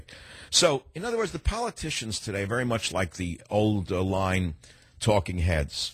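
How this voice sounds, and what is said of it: New York accent. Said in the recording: “You can even have a weird New York accent like I do ... an odd accent”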